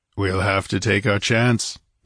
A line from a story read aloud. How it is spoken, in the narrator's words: he grunted